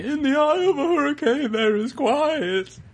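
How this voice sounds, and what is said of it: Yawning-sounding sung imitation of singer. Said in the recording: “that was a really good impression of him ... you do the Jim Morrison thing where you like you sound like you're yawning as you sing”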